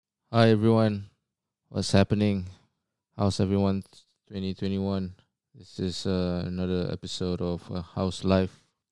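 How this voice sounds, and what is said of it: Low, monotonous voice. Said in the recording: “the tone of my voice is low and monotonous. This is just how I am.”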